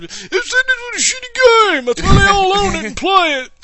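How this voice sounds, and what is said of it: Old man voice. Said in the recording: “Nice old man impersonation”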